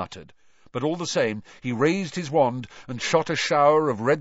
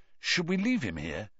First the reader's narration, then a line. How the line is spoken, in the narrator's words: Cedric muttered